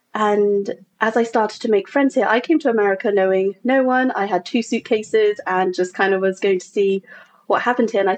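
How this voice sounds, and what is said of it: English accent. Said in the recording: “from the accent, I'm from England originally”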